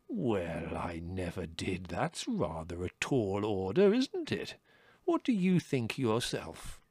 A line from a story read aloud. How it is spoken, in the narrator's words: in an extremely understanding voice, he said